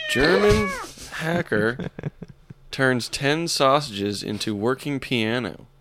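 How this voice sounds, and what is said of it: Reading in a put-on accent. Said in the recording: “I'll have to read this one in an accent... Say that again, but with an accent, please.”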